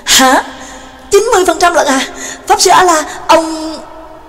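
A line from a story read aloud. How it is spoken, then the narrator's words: Surprised exclamation. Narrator (Vietnamese): Nhạc Dương ngạc nhiên thốt lên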